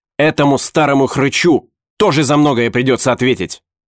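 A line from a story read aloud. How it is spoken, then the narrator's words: Barked. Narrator (Russian): рявкнул Эликас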